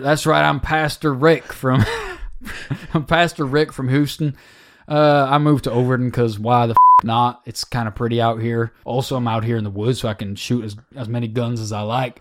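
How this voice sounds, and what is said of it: Put-on Southern US accent. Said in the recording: “someone with a southern accent”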